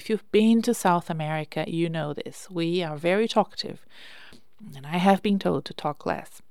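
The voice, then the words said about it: Brazilian-accented English. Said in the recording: “I'm Brazilian. Did you know? You probably have noticed. I have an accent.”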